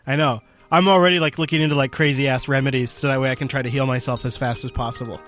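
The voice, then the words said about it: Hoarse, strained voice. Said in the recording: “I'm beginning to lose my voice... I can go cough up a lung off mic”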